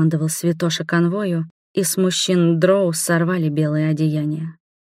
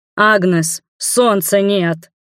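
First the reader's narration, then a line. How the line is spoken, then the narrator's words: Shout. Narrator (Russian): крикнул мне Иорон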